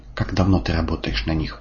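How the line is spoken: Calm question. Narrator (Russian): спокойно спрашиваю я

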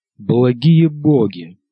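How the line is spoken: Sighing. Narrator (Russian): вздохнул он

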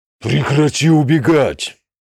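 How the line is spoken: Roaring. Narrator (Russian): проревел Оркозарок

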